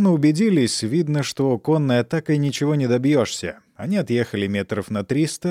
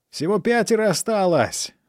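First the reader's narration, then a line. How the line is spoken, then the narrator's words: Yelling. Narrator (Russian): завопил Фанфан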